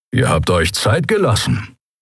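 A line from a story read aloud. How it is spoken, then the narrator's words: Grumbled. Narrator (German): brummte er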